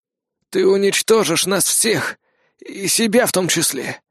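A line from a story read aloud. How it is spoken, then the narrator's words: Hoarse voice from below. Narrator (Russian): произнес хриплый голос откуда-то снизу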